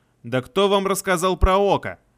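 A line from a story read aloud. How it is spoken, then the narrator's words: Exasperated shouting. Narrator (Russian): Не выдержав, заорал я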